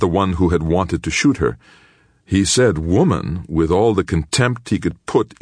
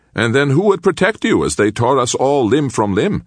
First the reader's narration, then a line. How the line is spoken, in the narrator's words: said another quite cheerfully